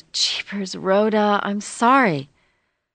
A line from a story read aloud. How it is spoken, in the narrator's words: groaned